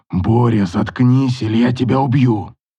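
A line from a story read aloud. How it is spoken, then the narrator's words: Strained hoarse voice. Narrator (Russian): Вымученно отвечал другой, сиплый, будто посаженный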